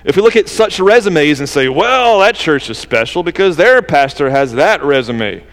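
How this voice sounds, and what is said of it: Southern accent slips out. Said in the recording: “That's my southern accent, resume. Did you hear that come out? It happens sometimes.”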